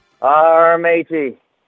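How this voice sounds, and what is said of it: Talks like a pirate. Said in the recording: “Why don't you do it now for us? ... I'll be talking like a pirate for you.”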